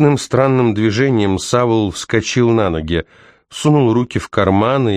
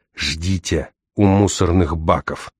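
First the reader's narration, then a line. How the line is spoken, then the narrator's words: Whispering. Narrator (Russian): прошептал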